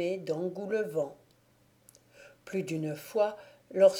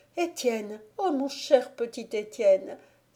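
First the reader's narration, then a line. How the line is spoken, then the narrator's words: Young woman crying out. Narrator (French): s'écria la jeune femme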